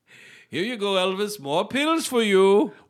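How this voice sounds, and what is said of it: Dr. Nick impression. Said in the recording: “A Dr. Nick impersonator”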